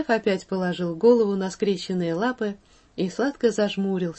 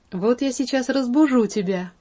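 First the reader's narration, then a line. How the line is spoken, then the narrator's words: Exclaiming. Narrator (Russian): воскликнула Кити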